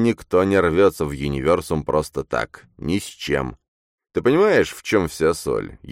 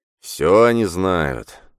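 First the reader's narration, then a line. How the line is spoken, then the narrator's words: Sighing. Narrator (Russian): вздохнул Коктебель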